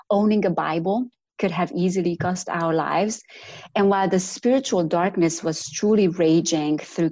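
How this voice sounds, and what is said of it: Slight Romanian accent. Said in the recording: “I have a little bit of an accent, and it's not a Southern one ... my accent originally comes from Romania”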